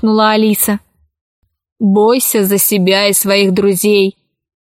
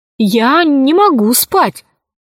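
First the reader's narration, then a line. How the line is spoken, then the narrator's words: Exclaiming. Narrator (Russian): воскликнула Алиса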